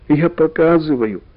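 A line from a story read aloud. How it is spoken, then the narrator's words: Sighing and sobbing. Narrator (Russian): вздохнул Карик и снова всхлипнул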